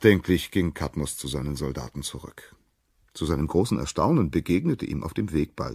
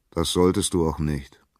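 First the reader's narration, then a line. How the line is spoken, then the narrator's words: Plain. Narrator (German): antwortete das Orakel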